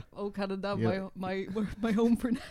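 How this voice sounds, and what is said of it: Imitates another person's voice. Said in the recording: “my flawless impression ... it was so convincing ... oh, yeah, that definitely is Killian”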